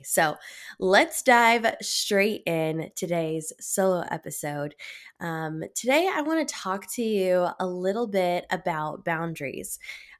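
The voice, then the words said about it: Congested voice with head cold. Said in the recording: “I'm definitely like in my head. I've got a little bit of a head cold. So if my voice sounds weird”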